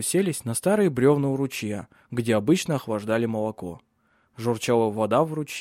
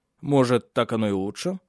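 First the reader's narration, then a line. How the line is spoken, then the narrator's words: Plain. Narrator (Russian): наконец сказал он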